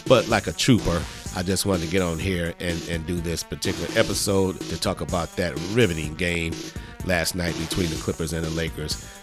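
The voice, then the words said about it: Sick, unwell-sounding voice. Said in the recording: “I do apologize for my voice. I am really, really under the weather.”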